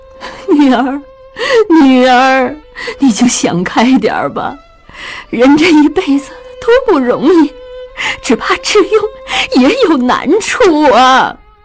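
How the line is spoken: Weeping. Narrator (Chinese): 江母跟着哭道

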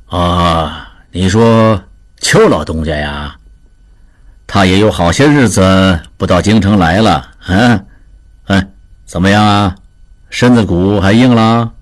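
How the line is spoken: Faint smile. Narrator (Chinese): 王显淡淡一笑

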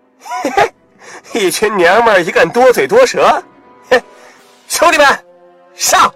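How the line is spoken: Leering, mocking thug. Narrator (Chinese): 无赖嬉皮笑脸地说道

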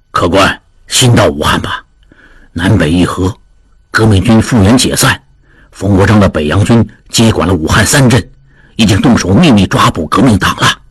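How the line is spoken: Old man, low voice. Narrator (Chinese): 一老者低声道

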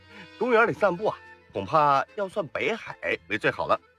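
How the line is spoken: Laughing. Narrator (Chinese): 谢玉树笑

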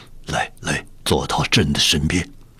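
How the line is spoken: Quiet voice. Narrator (Chinese): 小声说道

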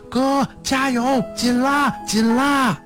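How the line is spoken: Anxious shouting while running. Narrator (Chinese): 我也不放心的跟在后面跑，一边叫着

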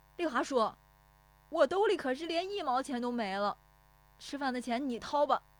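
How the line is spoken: Shouting while chasing. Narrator (Chinese): 石有福撵着喊

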